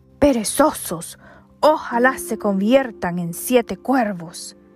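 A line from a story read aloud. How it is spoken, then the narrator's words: Desperate, uncontrolled exclamation. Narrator (Spanish): su desesperación por la tardanza de los muchachos fue tanta y tan grande que sin poder contenerse exclamó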